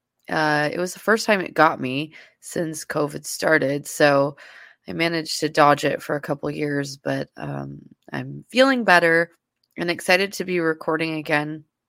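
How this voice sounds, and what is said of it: Congested voice from a cold. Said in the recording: “I had COVID, and I'm sure you can still hear in my voice. I'm battling a little bit of the cold portion of it still.”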